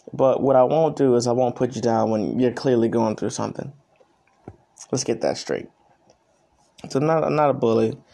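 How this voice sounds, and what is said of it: Tired, early-morning voice. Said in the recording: “I sound so tired right now. I'm doing this before work. It's like 5 a.m.”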